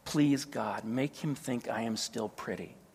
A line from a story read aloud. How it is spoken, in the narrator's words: she whispered